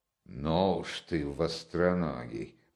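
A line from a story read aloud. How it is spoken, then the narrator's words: Muttered. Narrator (Russian): пробормотала Настасья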